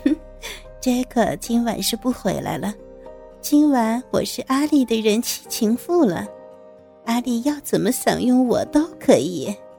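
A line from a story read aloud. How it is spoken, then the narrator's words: Lewd leering tone. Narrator (Chinese): 带着一丝淫笑说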